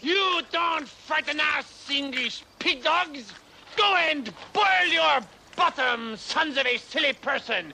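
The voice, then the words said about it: Outrageous French accent. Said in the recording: “I'm French. Why do you think I have this outrageous accent”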